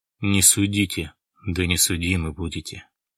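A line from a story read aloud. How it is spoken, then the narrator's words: Sighing. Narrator (Russian): вздохнул Баратов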